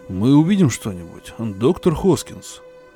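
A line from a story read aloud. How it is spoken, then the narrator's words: Plain. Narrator (Russian): спросил он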